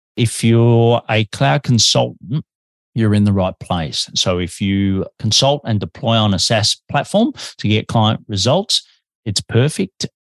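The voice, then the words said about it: Australian accent. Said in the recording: “I'm an Aussie and I'm living in Melbourne, Australia, but I have a bit of an accent”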